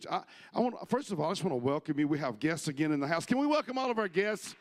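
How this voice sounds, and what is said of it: Strained, hoarse voice. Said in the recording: “I'm already losing my voice”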